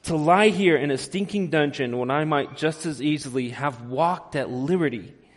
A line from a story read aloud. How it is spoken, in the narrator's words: exclaimed again, even more loudly